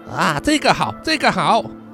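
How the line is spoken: Forced, fake cheer. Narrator (Chinese): 汤姆紧绷的表情，然后突然间转变成了笑容啊，非常假的笑容，说

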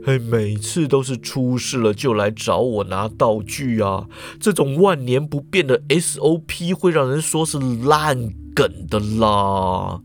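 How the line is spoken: Mumbled complaining. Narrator (Chinese): 严教授 喃喃抱怨的说啦

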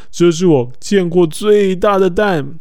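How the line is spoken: Exclaiming. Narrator (Chinese): 国王叫了起来，他说

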